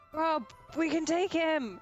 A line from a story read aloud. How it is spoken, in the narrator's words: she's just gonna shout